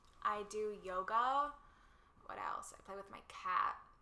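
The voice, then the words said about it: Put-on Valley girl accent. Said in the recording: “in a Valley girl voice ... Is this a Cali accent? I don't even know.”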